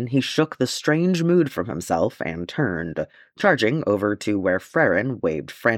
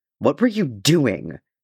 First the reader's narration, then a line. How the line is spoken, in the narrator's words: snapped Farron, his voice high and tight